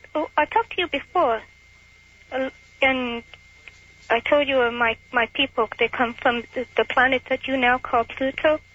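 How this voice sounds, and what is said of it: Unplaceable alien-sounding put-on accent. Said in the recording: “a fairly impressive accent this alien has ... I can't place it. It sounds alien.”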